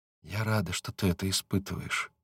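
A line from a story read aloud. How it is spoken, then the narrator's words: Whispered. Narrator (Russian): говорит она шепотом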